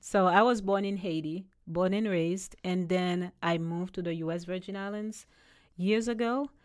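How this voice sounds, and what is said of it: Slight foreign accent. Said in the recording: “you have a little bit of an accent... Just a little bit”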